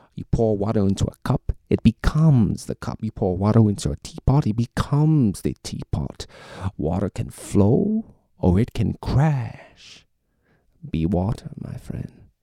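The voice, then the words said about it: Bruce Lee impression. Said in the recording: “anyone looking for a Bruce Lee impersonator, you know, hit me up”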